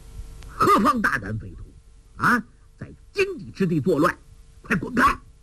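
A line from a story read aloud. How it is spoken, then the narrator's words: Furious shout. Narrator (Chinese): 带队的武官大怒，喝道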